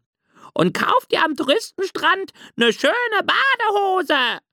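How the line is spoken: Loud call, seagull. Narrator (German): rief laut die Möwe Rose

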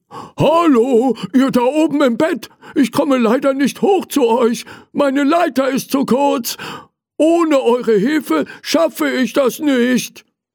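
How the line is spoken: Calling out. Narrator (German): Er rief

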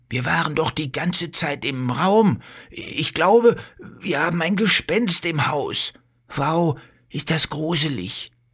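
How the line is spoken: Frightened speech. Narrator (German): sagt Bello und schaut sich ängstlich um

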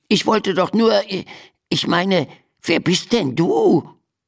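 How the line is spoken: Stammering. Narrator (German): stammelte Biff

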